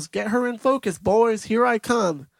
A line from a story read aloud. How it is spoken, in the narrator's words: He yells